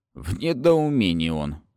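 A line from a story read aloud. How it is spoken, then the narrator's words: Snorting. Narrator (Russian): хмыкнул Гундер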